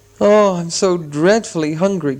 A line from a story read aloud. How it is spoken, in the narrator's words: groaned Bilbo, who was suddenly aware that he had not had a meal since the night before last